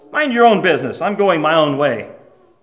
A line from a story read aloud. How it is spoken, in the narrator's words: the man shook his hand off and grumbled